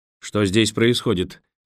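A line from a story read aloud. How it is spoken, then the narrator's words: Sharp, rising anger. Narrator (Russian): резко спросил Николас, начиная приходить в ярость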